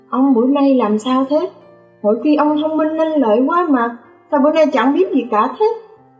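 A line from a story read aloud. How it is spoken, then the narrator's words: Extremely annoyed. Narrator (Vietnamese): Tôi bực bội vô cùng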